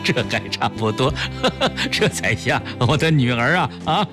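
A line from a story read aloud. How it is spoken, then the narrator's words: Laughing through tears. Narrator (Chinese): 崔子昂这才破涕为笑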